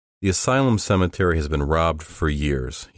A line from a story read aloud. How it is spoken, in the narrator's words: he said